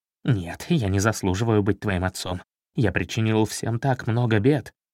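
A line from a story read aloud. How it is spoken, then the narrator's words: Hurried mumble. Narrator (Russian): торопливо пробормотал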